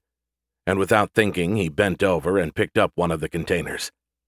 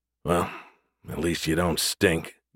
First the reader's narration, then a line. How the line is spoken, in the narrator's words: Gus said under his breath